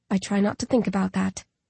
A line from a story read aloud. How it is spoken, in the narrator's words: Coley says softly